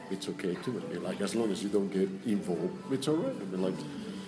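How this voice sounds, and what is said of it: Accented speech, hypnotic tone. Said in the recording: “Your accent, your tone, you're almost hypnotic to listen to.”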